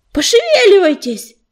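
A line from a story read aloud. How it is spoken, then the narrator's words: Shouted. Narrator (Russian): крикнул Ежевика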